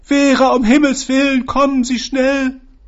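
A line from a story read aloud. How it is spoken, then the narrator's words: Calling out. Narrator (German): rief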